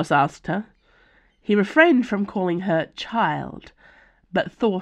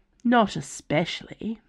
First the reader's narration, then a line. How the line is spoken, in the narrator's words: muttered